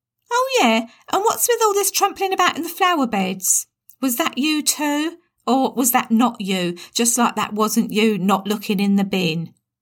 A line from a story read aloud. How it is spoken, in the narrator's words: Tammy, now shouting, said